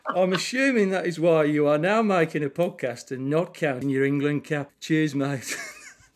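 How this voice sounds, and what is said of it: Reads a letter in a put-on accent. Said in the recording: “great accent as well”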